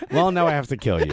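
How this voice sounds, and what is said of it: Imitates another person's voice. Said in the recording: “that was my Christian Polanco impression”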